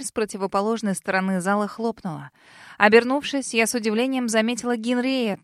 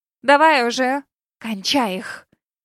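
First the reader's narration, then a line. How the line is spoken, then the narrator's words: Loud hissing whisper. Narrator (Russian): Громким шепотом шикнула она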